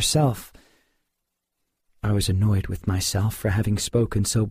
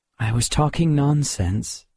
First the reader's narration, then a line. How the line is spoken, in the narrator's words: I said wearily